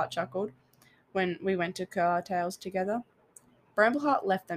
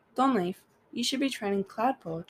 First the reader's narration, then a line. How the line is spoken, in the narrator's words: Jetstar sighed